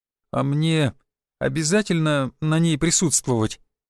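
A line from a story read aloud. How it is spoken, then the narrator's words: Uncertain question. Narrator (Russian): неуверенно спросил мануфактурщик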